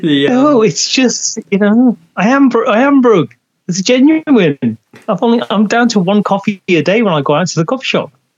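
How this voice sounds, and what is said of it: English accent. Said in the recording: “he's got an English accent”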